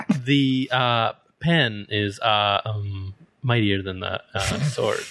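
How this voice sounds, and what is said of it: Poor Jeff Goldblum impression. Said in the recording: “Was that your Jeff Goldblum impression? ... That was a terrible Jeff Goldblum.”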